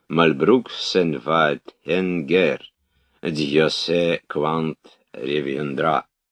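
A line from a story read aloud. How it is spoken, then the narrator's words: Old man, off-key singing. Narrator (Russian): старик запел фальшивым и старческим голосом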